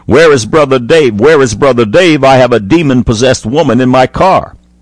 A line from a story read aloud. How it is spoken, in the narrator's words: A sister in the Lord came running into the kitchen shouting